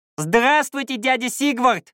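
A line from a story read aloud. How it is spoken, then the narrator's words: Almost squeaked. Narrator (Russian): почти пискнул он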